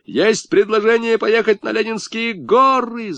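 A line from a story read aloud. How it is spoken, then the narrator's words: Yelling. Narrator (Russian): заорал Сашка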